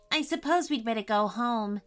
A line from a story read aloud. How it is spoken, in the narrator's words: said Chantelle